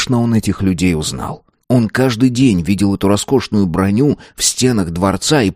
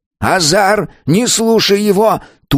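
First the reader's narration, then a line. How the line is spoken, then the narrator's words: Old man shouting. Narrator (Russian): тут же крикнул старик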